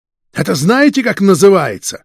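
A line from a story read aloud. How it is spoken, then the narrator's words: Angry. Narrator (Russian): начальник сыскной зло произнес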